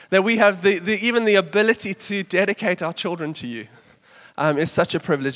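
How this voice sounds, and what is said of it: Slightly trembling, sick voice. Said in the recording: “my voice is trembling a little bit ... It's because I'm sick ... if my voice disappears”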